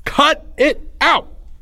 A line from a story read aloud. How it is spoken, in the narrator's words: Leo said loudly, commanding their attention